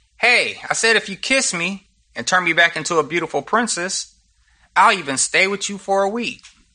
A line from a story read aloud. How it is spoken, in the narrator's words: the frog cried out